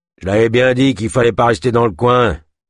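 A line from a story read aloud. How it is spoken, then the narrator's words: Growled. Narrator (French): gronda Kolb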